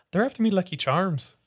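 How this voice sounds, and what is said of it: Put-on Irish accent. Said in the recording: “if I did an Irish accent”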